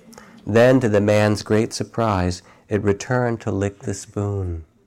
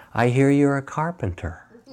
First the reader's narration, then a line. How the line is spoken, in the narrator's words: smiled kindly, and said